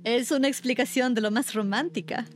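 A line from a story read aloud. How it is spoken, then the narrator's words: Laughing hostess. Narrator (Spanish): dijo riendo la anfitriona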